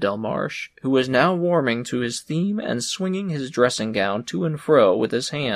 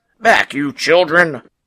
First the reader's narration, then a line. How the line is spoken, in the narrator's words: shouted the policeman